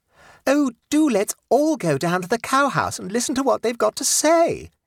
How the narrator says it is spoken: exclaimed Beryl, to whom anything was thrilling and amusing if you did it in a troop

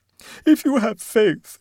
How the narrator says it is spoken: she sobbed, struck by a happy inspiration

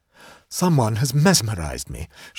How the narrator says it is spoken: she exclaimed crossly

